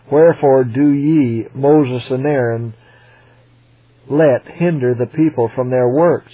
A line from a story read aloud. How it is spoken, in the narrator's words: he said